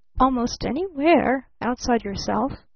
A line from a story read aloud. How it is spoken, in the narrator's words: murmured the older man blandly